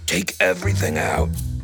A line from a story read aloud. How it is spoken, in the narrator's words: he said in a low, hoarse voice that was almost a whisper